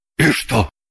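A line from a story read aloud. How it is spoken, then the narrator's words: Grumbling. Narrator (Russian): буркнул Шульгин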